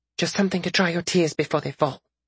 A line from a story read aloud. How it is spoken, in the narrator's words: Nanasi whispered